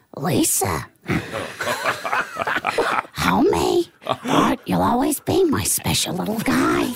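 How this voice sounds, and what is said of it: Marge Simpson cartoon voice impression. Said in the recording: “the best impersonations ... for Marge Simpson.”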